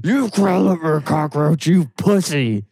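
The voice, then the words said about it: Strained raspy Randy Savage impression. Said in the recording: “That's my Randy Savage... I can't try again because that hurt... Randy Savage is a good impression if you want to have polyps in your throat.”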